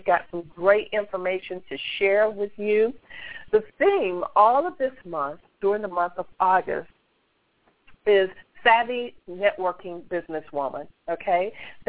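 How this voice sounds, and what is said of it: Slightly hoarse, cloudy voice. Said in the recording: “I'm dealing with a cold / sinus today, so forgive me if my voice is a little bit hoarse or cloudy”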